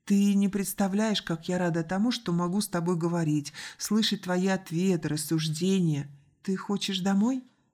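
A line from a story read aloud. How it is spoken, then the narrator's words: Gentle interruption. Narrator (Russian): Мягко перебил сестру Артур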